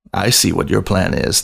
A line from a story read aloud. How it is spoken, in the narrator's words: the photographer purred at his subject